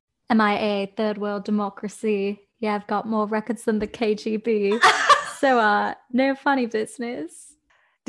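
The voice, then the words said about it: Put-on British accent. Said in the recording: “Give me your best British accent.”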